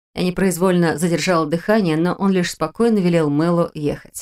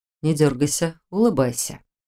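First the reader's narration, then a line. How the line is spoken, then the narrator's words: Quiet command. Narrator (Russian): тихо велел он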